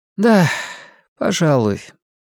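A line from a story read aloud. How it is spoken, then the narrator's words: Sighing. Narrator (Russian): матушка Абагейл снова вздохнула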